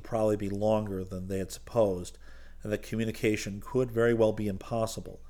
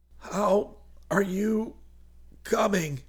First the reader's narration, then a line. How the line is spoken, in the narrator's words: He wheezed into his microphone